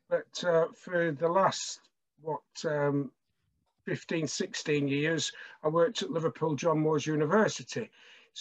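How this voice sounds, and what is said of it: Lancashire English accent. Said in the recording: “I'm actually from Blackburn. Can tell from the accent in Lancashire.”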